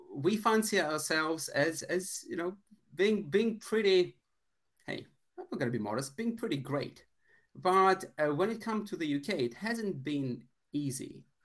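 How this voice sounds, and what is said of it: Foreign accent, Bond-villain-like. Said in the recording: “Both of us are immigrants, as you can probably tell from my wonderful James Bond villain-like accent.”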